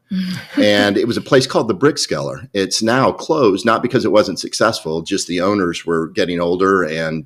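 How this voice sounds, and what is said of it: Southern American accent. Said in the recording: “they liked my Southern accent.”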